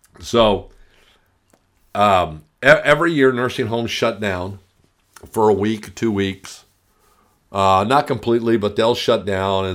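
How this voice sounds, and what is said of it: Tired voice, speaking softly. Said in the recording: “forgive my voice. I've been talking a lot this week. That's why I'm trying to talk in a softer voice.”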